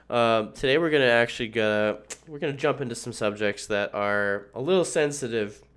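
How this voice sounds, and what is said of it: Sick-sounding, hard-to-listen-to voice. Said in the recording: “excuse my voice. I'm very sick ... So probably just a bad sinus infection. So my apologies if it's hard to listen to”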